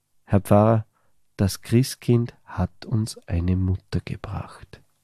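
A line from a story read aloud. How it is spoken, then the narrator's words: Boy whispering. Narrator (German): Flüstert der Bub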